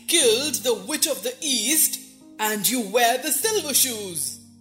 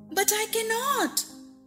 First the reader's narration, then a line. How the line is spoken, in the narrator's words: exclaimed Dorothy, greatly surprised